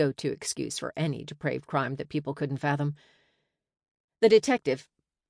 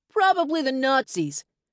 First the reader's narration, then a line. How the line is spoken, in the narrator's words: Yet another person hollered